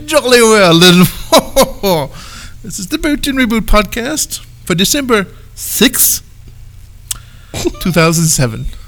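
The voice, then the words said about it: Put-on accent. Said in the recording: “let's do the whole thing with an accent”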